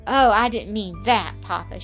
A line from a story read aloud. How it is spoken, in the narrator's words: she cried, blushing vividly